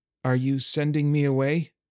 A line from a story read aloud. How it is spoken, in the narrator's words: to keep my voice from shaking